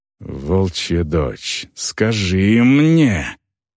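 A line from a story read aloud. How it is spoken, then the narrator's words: Growled. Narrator (Russian): прорычала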